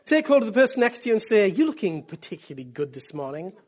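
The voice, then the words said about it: Northeast English accent. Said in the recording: “I'm British. And from the northeast of England all my life. That's why I speak like this.”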